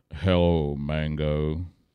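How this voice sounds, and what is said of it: Deep imitated male voice. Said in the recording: “He had a deep voice. ... Kind of like the voice you heard on Daniel Boone, except deeper.”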